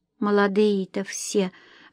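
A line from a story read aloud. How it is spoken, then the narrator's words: Mother sighing. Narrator (Russian): вздохнула мама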